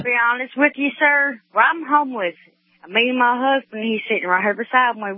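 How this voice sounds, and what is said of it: Kentucky Southern accent. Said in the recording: “Is that a Mississippi accent? ... No, it's in Kentucky. I was born and raised in Kentucky.”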